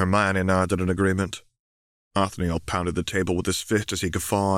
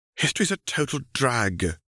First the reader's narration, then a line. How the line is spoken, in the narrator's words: moaned Daphne